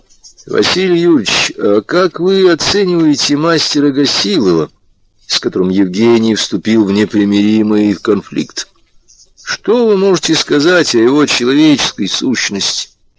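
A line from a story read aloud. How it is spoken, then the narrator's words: Measured, dull question. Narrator (Russian): Прохоров размеренным, тускловатым голосом спросил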